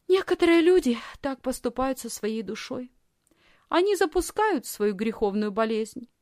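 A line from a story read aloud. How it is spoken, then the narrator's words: Thoughtful reply. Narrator (Russian): Лисхин задумчиво ответила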